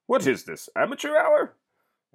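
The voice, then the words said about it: Poor impression of a movie character. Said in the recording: “that wasn't a very good impression.”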